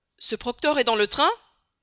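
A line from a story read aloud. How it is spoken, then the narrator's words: Exclaimed. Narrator (French): s'écria Fix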